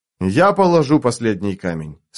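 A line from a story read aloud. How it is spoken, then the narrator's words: Plain. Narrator (Russian): сказал Немандр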